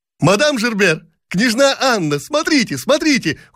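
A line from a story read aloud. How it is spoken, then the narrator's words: Many young women shouting together. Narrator (Russian): хором закричали бесчисленные барышни Долгоруковы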